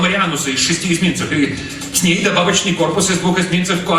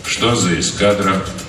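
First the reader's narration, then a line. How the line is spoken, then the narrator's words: Calm question. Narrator (Russian): спокойно поинтересовался полковник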